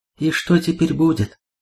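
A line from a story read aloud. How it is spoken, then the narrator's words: Plain. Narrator (Russian): спросил Храник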